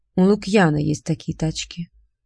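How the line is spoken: Said gloomily. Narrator (Russian): мрачно сказал он

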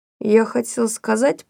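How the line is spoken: Muffled, hollow voice. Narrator (Russian): продолжал Том глухо

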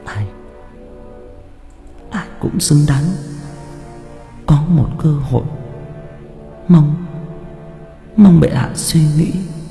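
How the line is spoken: Trembling, moaning reply. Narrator (Vietnamese): Cô run rẩy, cô vừa rên rỉ vừa đáp

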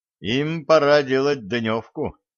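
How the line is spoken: Loud warning. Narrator (Russian): громко предупредил Середин

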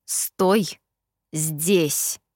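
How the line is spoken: Slow, syllable by syllable. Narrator (Russian): медленно проговорил он по слогам

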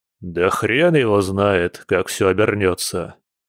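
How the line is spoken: Sour grumble. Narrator (Russian): кисло проворчал генерал, скривившись

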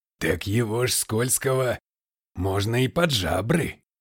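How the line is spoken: Eager deep bass. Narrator (Russian): азартно пробасил купец

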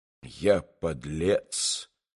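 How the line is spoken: Whispered to himself. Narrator (Russian): прошептал он про себя

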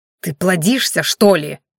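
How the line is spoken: Irritated man hissing. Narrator (Russian): в сердцах прошипел раздосадованный мужчина

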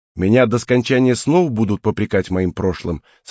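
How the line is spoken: Cold question. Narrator (Russian): спросил я холодно

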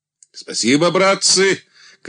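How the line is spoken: Shout. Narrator (Russian): крикнул Андрей

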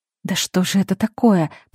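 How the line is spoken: Muttered. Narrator (Russian): пробормотала Марина

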